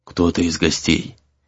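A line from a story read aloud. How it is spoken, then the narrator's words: Barely audible whisper. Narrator (Russian): едва слышно прошептал Гризли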